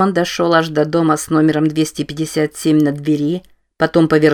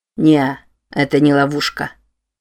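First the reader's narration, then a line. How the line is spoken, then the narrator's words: Plain. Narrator (Russian): сказал Фердинанд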